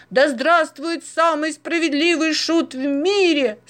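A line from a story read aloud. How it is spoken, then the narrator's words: Delighted crowd shouting. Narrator (Russian): с восторгом заорали из толпы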